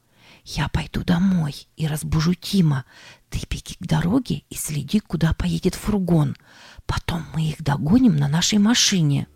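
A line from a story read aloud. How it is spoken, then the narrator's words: Whispered. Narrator (Russian): шепнула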